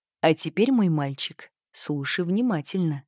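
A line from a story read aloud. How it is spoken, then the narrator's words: Conspiratorial whisper. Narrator (Russian): сказал дедушка, понизив голос до заговорщицкого шепота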